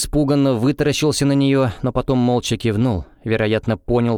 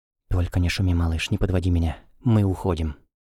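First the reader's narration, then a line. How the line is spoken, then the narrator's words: Whisper in the ear. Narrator (Russian): Эва шепнула на ухо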